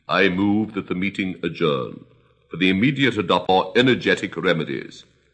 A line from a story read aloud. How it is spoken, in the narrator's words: said the dodo solemnly